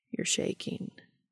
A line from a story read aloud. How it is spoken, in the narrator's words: murmurs, soothing